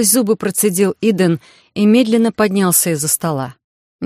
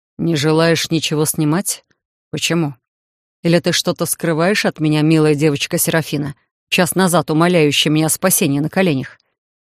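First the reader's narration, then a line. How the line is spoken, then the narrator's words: Mocking, through teeth. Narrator (Russian): Последние три слова Титан процедил с какой-то особой издевкой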